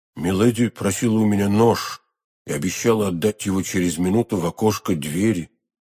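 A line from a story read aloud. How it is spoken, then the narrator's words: Plain. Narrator (Russian): ответил Фельтон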